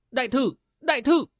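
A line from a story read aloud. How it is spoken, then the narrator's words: Shout. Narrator (Vietnamese): Tư Văn la lên một tiếng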